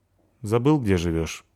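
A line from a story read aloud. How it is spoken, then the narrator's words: Sad. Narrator (Russian): грустно сказал Славик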